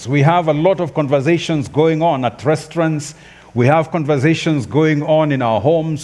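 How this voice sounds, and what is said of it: African-accented English. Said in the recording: “this African man with his interesting accent”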